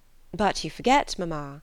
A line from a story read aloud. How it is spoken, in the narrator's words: said Elizabeth